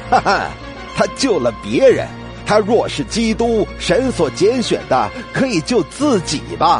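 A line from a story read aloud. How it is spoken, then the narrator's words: Sneering mockery. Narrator (Chinese): 官府也嗤笑他说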